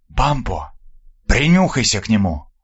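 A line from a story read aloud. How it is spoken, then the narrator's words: Whispering foreman. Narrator (Russian): прошептал десятник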